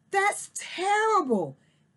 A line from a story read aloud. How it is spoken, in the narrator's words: Daisy gasped